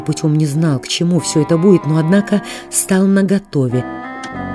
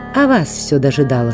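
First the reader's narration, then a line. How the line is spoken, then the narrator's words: Calm reply. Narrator (Russian): спокойно глядя на него, ответила Катерина Львовна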